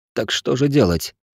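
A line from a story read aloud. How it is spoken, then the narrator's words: Dejected, sinking voice. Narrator (Russian): совсем упавшим голосом спросил Патрик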